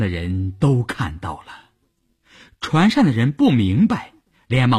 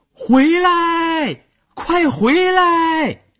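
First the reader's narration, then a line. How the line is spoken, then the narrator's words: Shouting across water. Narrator (Chinese): 朝着快到河中央的船喊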